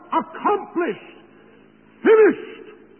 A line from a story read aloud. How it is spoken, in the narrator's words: with a loud voice, he cried